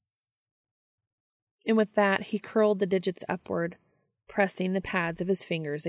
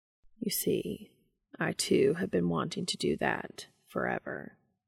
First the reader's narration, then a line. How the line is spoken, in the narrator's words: Castiel mumbled